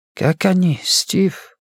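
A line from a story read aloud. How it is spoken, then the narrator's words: Quiet question. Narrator (Russian): тихо спросил Сурендра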